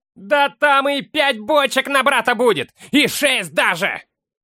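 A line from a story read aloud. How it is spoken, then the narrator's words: Shout. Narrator (Russian): крикнул кто-то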